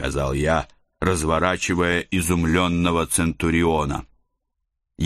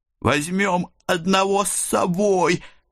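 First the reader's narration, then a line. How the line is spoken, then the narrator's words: Pleading. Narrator (Russian): взмолился он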